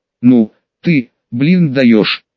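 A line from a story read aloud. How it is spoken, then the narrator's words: Rough drawling imitation. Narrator (Russian): Растягивая слова, грубым голосом, видимо подражая какому-то человеку, сказал парень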